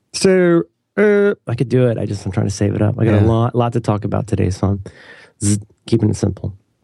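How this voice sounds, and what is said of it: Sick-sounding voice. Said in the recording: “you can't even do the voice. You are really sick.”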